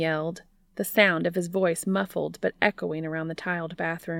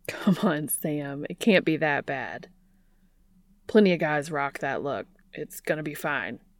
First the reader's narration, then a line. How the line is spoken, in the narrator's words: Dean answered, trying and failing to keep the laughter out of his voice